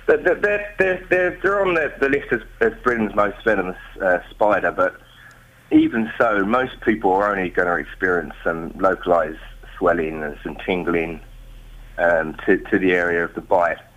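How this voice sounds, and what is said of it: Slight Australian-sounding twang. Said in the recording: “Am I detecting an Australian accent? ... You are, but I'm not Australian. ... I've just always had a bit of a twang.”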